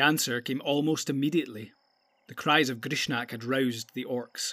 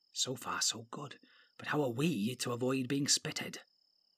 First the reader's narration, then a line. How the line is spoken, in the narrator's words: whispered softly